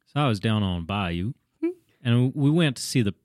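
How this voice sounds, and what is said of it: Usual voice. Nothing is said of it.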